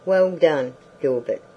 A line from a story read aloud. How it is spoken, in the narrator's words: cried the sheriff right joyously